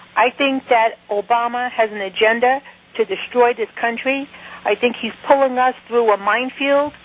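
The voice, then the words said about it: Strong Brooklyn accent. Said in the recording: “I'm from Brooklyn. I have a terrible accent.”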